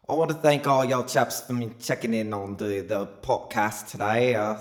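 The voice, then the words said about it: Mock British English accent. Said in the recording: “Sometimes I might sound British, sometimes I might sound Texan... you got the Fresno English accent”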